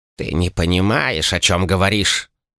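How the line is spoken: Flat emotionless elderly voice. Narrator (Russian): Уже обычным, безэмоциональным тоном продолжил старец

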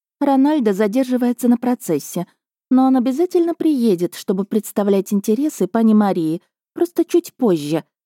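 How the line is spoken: Soft. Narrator (Russian): мягко ответила Джина

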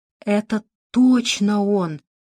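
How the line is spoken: Stammering child's whisper. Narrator (Russian): заикаясь, прошептал мальчик

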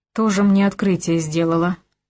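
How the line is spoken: Scornful snort. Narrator (Russian): фыркнул Вилли

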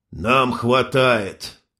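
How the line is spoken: Grim joke. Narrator (Russian): мрачно сострил Кириллыч

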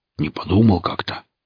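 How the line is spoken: Embarrassed mumble. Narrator (Russian): смущенно промямлил Велес

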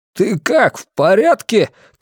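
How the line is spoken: Shouted. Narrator (Russian): крикнул я

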